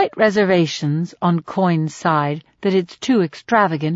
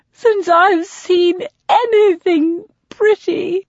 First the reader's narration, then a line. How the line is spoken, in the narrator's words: gasps